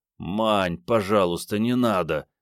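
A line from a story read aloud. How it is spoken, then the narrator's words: Groaning plea. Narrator (Russian): застонал Андрей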